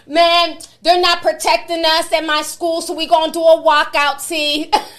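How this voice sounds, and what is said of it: Put-on New York accent. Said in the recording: “With the New York accent ... I think I got your accent down.”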